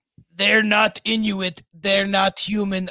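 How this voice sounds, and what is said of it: Shaky attempt at a put-on accent. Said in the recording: “I don't know how to do that accent.”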